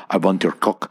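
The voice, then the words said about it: Thick put-on Russian accent. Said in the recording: “She's like a Russian broad. She's going to like talk crazy Russian shit in my ear. She got like a thick ass accent.”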